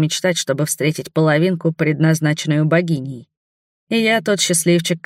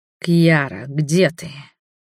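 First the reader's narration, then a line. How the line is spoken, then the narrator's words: Hoarse, desire-filled whisper. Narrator (Russian): прошептал хриплым от накатившего желания голосом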